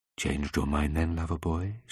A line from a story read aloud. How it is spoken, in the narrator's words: she said quietly